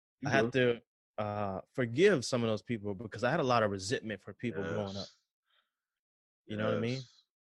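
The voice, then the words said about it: Slight Southern American accent. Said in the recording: “I got a little accent. I'm from the South.”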